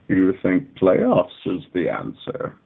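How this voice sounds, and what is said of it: Bane impression. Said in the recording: “my Bane impression.”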